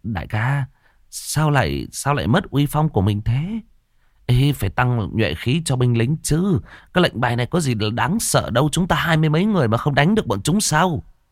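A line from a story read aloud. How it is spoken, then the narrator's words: Frightened, trembling, defiant. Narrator (Vietnamese): sợ hãi run run rẩy rẩy, mặt không phục nói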